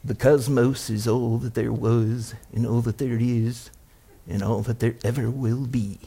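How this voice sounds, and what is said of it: Carl Sagan impression. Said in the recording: “He'd say it like this ... It kind of sounds like it. I like to do my Carl Sagan impression.”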